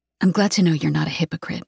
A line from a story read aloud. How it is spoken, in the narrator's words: I whisper